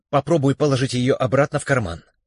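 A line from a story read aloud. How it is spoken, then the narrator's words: Agitated mutter. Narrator (Russian): взволнованно пробормотал Шурик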